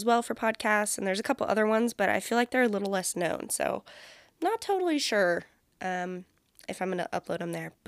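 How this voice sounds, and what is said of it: Scratchy, groggy, congested nasal voice. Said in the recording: “my voice is a little scratchier and a little groggier than normal ... I wasn't so congested, so like nasally”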